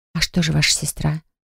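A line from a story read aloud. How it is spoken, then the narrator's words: Whispered. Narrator (Russian): шепнула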